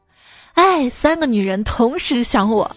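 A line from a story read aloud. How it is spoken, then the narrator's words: Sighing exclamation. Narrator (Chinese): 一个胖子，然后他感叹道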